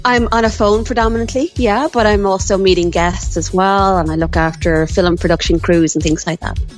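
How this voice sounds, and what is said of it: Accent, extra vowel in 'film'. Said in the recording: “I like the way you say film. ... my accent kind of film. Leaked out there. ... An extra a vowel between the L and the M.”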